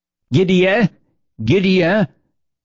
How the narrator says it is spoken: was frantically shouting from the porch

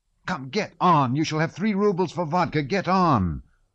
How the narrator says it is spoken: Rostov shouted

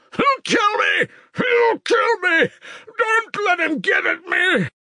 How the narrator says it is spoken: he screamed

